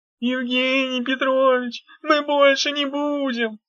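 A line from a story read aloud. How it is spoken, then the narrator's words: Giggling. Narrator (Russian): Дав хихикнула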